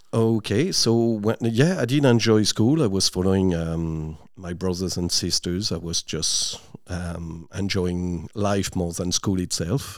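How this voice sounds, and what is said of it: French accent. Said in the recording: “asking if you're from France, because I'd say most listeners can pick it up from the accent ... I haven't lost it ... I keep the accent working”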